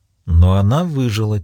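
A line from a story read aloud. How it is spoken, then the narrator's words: Quiet. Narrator (Russian): тихо произнесла Маура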